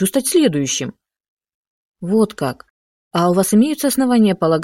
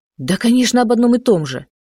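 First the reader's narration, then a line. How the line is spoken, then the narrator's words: Exclaimed. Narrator (Russian): воскликнул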